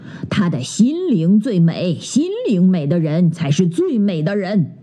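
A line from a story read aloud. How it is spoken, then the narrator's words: Cheerful chuckling. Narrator (Chinese): 黑熊裁判笑呵呵地说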